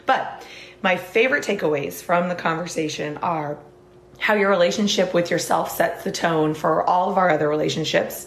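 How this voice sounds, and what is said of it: Hoarse, partly lost voice. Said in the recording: “if I sound a little bit hoarse, it's because ... there was a lot of loud music and yelling involved. So I've lost my voice a little bit”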